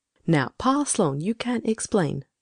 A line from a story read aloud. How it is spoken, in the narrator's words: she said